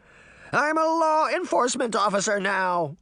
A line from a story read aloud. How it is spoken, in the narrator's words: Crane shouted, trying to muster all his courage